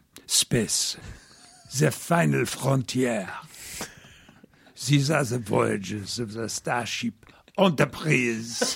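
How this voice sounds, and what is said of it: Comic French accent, Inspector Clouseau. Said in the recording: “with a French accent ... I sounded like Peter Sellers ... Inspector Clouseau”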